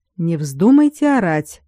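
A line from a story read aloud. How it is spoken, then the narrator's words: Cold warning. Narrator (Russian): предупредил холодно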